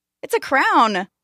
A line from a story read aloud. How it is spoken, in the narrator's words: one of the kids called out